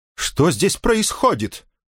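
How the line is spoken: Shouting. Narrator (Russian): закричал он на Тулио

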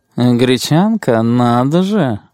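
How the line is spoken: Purring. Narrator (Russian): промурлыкал подавани

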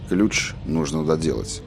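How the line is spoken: Gentle. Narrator (Russian): мягко промолвил Роланд

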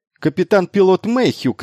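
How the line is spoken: Shouting. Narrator (Russian): крикнула она

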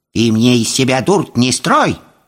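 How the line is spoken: Sharp shout. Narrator (Russian): прикрикнула Яга

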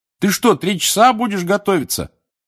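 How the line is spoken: Shouting after someone. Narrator (Russian): крикнул вслед Рон

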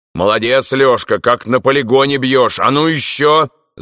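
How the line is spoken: Shouting over intercom. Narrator (Russian): закричал в ТПУ Шульгин

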